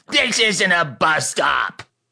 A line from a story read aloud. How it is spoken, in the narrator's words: she shrieked